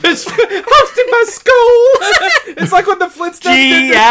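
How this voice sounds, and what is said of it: Usual voice. Nothing is said of it.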